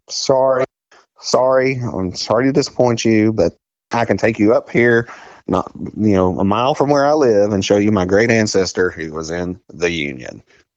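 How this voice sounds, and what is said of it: Southern US accent. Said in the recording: “I'm a white male with a Southern accent”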